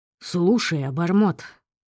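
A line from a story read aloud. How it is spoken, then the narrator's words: Stern voice. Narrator (Russian): произнес он суровым голосом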